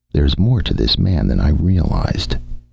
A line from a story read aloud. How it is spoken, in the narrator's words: he murmured